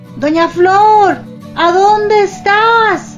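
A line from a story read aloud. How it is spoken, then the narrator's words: Worried neighbors shouting. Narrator (Spanish): gritaban sus vecinos preocupados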